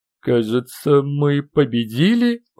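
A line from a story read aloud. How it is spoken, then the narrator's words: Strained forced words. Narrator (Russian): выдавил из себя Гена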